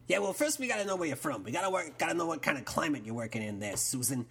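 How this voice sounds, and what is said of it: Texas accent. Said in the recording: “As you might have heard from my accent, I'm born and bred in Texas.”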